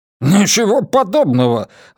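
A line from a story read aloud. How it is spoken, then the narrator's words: Manager exclaiming. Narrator (Russian): воскликнул управляющий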